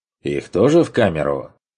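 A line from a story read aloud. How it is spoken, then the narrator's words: Scoffing. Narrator (Russian): хмыкнул подопечный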